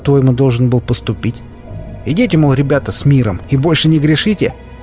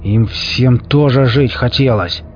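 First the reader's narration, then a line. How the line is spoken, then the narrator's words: Through gritted teeth. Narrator (Russian): Процедил сквозь зубы сионист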